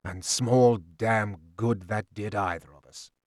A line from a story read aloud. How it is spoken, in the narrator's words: he said slowly